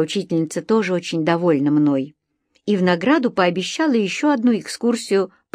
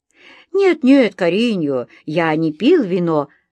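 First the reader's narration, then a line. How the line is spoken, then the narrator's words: Laughing reply. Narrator (Russian): засмеялся в ответ на мой встревоженный вопрос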